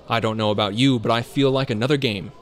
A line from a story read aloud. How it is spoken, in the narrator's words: Julian exclaimed